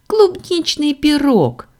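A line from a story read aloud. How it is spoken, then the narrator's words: Child's happy agreement. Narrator (Russian): радостно согласился ребенок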